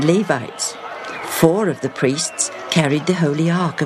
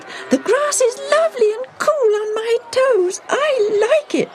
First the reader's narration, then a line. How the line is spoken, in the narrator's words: squealed